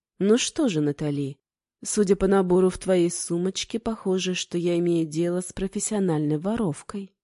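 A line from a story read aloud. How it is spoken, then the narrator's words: Calm. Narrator (Russian): спокойно откликнулся кузнец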